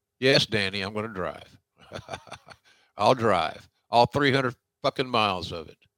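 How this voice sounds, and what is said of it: Usual voice. Nothing is said of it.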